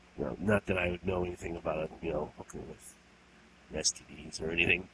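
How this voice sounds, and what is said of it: Rough, sick-sounding voice. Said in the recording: “as you can probably clearly hear from my voice, I got a nasty case of bronchitis”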